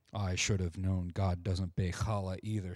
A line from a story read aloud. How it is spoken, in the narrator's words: said David, his voice low and sad too